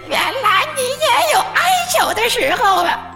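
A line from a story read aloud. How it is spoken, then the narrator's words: Loud laughter. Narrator (Chinese): 他大笑道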